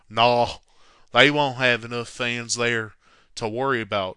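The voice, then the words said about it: Imitating Billy Martin's accent. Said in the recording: “here, I'll do it in his accent”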